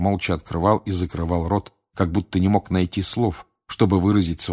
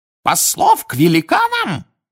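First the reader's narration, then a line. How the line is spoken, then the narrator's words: Shrieked, finding voice again. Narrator (Russian): взвизгнул Фадж, снова овладев даром речи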